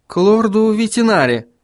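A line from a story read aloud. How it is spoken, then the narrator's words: Hesitant, uncertain. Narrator (Russian): неуверенно произнес Вильям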